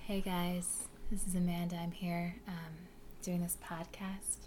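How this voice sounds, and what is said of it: Put-on NPR-style podcast voice. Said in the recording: “I didn't do my podcast voice ... Delicious Dish. Is that the NPR podcast parody on SNL? That's where I get my podcast voice from.”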